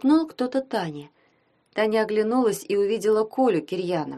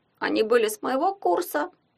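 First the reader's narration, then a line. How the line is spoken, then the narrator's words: Explaining, then giggling. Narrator (Russian): пояснил Коля и хихикнул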